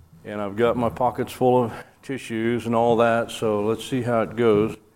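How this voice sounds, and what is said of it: Sick, congested voice. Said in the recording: “I have a cold”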